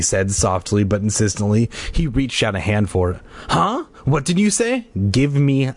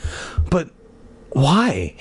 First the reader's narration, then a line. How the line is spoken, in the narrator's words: Hannah asked in a tiny voice